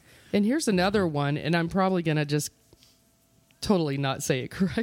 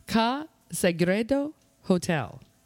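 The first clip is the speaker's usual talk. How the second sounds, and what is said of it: Slight put-on foreign accent. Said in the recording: “You even got a little accent in there.”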